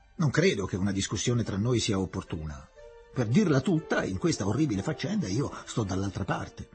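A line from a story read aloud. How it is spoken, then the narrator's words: Childish grumbling. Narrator (Italian): brontolò lui, sentendosi piuttosto puerile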